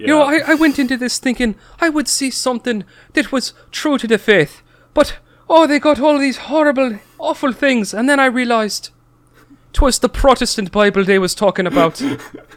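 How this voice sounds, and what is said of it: Exaggerated bad Irish accent. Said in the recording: “this horrendous Irish accent, pretending to be like a devout Catholic”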